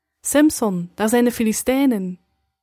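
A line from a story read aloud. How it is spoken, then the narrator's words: Calling out. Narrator (Dutch): riep zij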